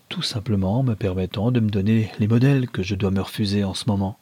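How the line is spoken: Gentle, smiling. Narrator (French): dit-elle en souriant doucement

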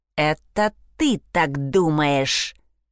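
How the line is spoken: Growl from behind. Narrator (Russian): прорычал кто-то у нее за спиной

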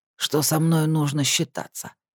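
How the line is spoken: Hoarse reply. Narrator (Russian): хрипло отозвался Ос

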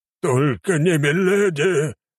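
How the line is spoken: King's roar. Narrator (Russian): взревел король

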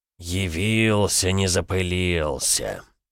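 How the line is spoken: Grumbling altar. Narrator (Russian): буркнул алтарь

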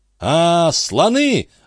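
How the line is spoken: Shouted. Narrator (Russian): закричал Жюэль

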